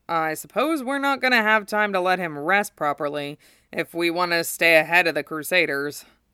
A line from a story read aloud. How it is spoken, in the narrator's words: Zack sighed